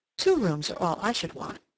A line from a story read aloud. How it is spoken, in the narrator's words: continued, with a curious sigh